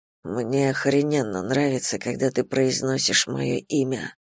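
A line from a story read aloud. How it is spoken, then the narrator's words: Mumbled against lips. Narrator (Russian): бормочет мне в губы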